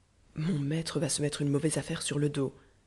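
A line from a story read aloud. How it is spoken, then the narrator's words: Murmured. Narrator (French): murmura Nisiba Bruno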